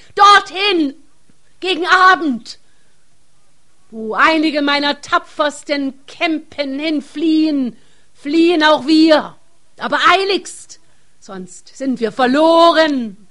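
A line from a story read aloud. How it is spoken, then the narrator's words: Chief screaming in alarm. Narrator (German): Der Häuptling erkennt nun die höchste Gefahr und schreit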